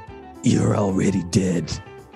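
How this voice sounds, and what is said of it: Imitates a stern anime hero's voice. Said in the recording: “I've seen the Fist of the North Star, and this is how he sounds ... that was just about as dumb as mine”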